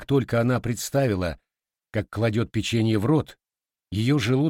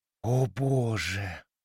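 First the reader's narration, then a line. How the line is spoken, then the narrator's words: Whisper. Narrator (Russian): прошептала Эбигейл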